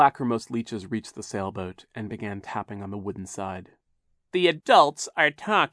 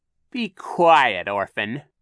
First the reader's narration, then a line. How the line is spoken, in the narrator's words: Captain Sham snapped